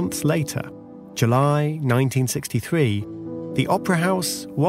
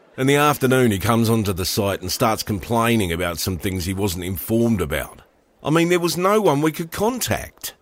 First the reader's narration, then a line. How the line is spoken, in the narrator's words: grumbled the Arup engineer